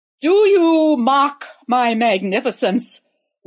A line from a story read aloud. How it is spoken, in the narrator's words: roared the emperor in his most imperious voice